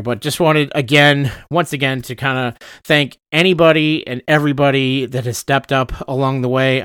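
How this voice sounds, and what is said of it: Tired, fading voice. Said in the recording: “my voice is starting to fade ... my brain is starting to fade because I haven't been to sleep tonight”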